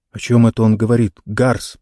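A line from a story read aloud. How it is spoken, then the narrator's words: Muttered, officer. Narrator (Russian): пробормотал один из офицеров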